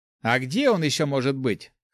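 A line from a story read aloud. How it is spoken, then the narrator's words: Scoffing snort. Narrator (Russian): хмыкнул Ари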